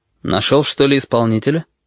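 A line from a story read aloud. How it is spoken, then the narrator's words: Calm, slightly mocking question. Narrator (Russian): спокойно, даже с каплей насмешки спросил он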